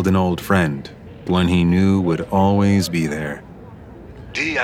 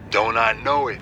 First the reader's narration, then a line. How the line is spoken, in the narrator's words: Casey laughed